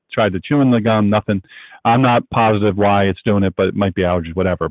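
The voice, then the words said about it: Strained, fading voice. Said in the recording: “I'm losing my voice for some reason ... I think within too long, I'm not going to have a voice”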